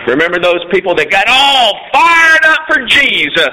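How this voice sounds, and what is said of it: Preacher voice. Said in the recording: “You like my preacher voice?”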